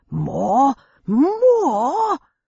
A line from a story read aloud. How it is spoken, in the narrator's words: Bumbles yelling